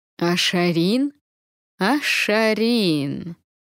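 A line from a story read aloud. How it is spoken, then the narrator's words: Insolent drawl. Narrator (Russian): нагло протянул он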